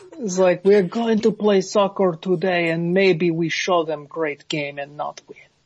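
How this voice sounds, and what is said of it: Bad fake Brazilian accent, Russian-sounding. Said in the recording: “Why is he doing a bad Brazilian accent? ... almost Sicilian Italian in how bad it was ... That was more Russian ... Godfather swallowed a Brazil nut and couldn't get it out of his throat”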